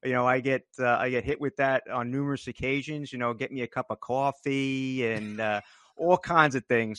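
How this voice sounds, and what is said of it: New Jersey accent. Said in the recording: “you are certainly not the first to recognize that accent ... I'm proud of my accent”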